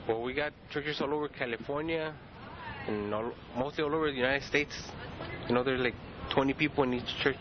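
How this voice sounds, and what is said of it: Spanish accent. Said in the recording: “I notice you have a Spanish accent. I assume Spanish is your first language.”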